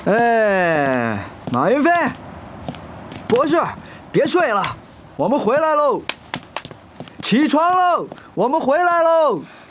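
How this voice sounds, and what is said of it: Shouting loudly. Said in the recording (Chinese): “别喊了”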